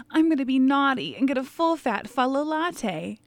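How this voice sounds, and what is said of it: Sultry late-night phone-line voice. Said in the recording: “weird voice ... It sounds like I should be calling your number at like 2 a.m. and like live singles in your area.”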